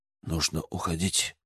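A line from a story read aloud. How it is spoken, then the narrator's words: Whisper. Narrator (Russian): прошептал Кураями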